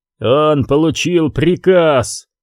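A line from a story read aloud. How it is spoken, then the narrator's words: Growled. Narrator (Russian): прорычал Лемон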